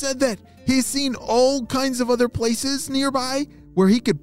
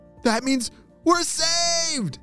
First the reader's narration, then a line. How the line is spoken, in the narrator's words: shouted Neil